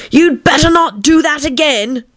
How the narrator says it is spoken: she said to herself, and shouted

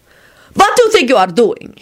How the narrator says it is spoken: he heard Radu say sharply

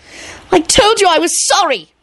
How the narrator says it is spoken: Rosie shrieked

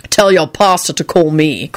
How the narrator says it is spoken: Quentin snapped

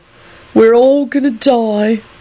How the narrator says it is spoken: Clive moaned pitifully from his bed

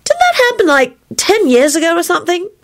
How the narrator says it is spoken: Rosie said in a puzzled voice

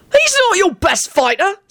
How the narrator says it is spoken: Sirius yelled back

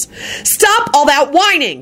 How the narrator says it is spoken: Shala yelled at the quadruplets

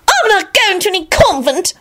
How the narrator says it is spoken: Solange shrieked

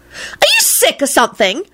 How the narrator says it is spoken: Rosie snapped

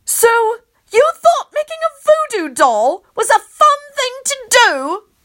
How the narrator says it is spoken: I yell, but not as loud as I want to, because I don't want to ruin my voice

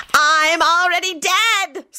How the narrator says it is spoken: Scully shouted

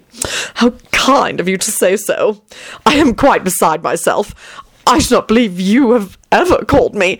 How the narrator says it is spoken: Tony giggled and flushed furiously

